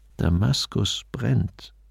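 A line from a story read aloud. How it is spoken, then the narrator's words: Quiet. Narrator (German): sagte leise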